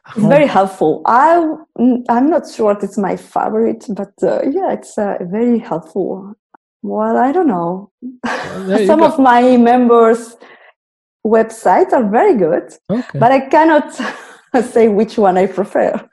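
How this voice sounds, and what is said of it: Spanish accent. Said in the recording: “my very Spanish cool. Accent.”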